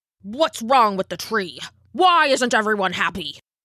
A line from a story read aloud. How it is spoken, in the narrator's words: snapped the Elder